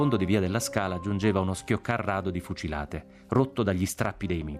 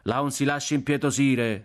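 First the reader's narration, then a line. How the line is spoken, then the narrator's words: Young man shouting. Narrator (Italian): gridò un giovinotto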